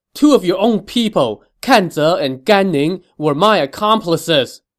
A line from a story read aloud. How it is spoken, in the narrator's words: shouted